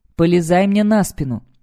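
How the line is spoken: Hoarse smoke-muffled shout. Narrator (Russian): кричит хриплым и приглушенным от дыма голосом

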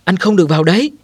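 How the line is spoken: Shouted. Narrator (Vietnamese): Viên sĩ quan hét lên

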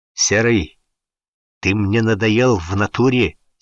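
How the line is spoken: Hissing through clenched teeth. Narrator (Russian): стиснув зубы, прошипел Шапито

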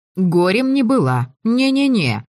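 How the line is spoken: Silent inner laugh. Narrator (Russian): мысленно засмеялась я

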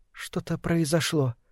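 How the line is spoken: Said quietly. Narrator (Russian): сказала Лилия негромко

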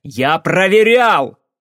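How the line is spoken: Yelled. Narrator (Russian): заорал я

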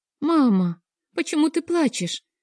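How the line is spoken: Frightened question. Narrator (Russian): испуганным голосом спросила Кира

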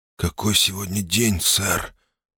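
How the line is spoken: Hoarse question. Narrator (Russian): все так же хрипло спросил я

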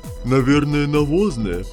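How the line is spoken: Laughing. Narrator (Russian): Засмеялся Водяной

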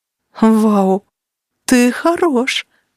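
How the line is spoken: Breathless exclamation. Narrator (Russian): выдохнула Денис

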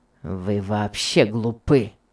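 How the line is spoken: Rude. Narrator (Russian): сказал Том грубо

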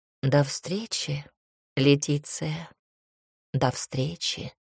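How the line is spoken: Purring. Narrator (Russian): Почти промурлыкал Клаус

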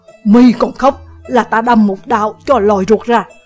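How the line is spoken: Angry scolding. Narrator (Vietnamese): Vạn Chấn Sơn quát mắng

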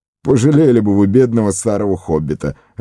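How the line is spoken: Laughing. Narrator (Russian): рассмеялся Фродо

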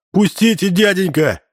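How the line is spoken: Wailing scream. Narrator (Russian): завопил он

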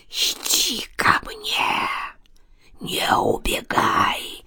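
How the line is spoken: Close hissing old woman. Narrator (Russian): Шипение показалось таким близким

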